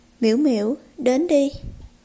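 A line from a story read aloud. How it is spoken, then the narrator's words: Sudden shout through teeth. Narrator (Vietnamese): Từ Gia Diên cắn chặt răng, đột nhiên hét lên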